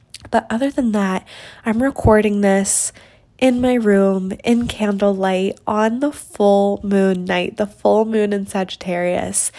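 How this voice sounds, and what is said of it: Stuffy, congested voice. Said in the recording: “hear in my voice, but I'm getting over a little sickness. So I apologize for any stuffiness on the mic.”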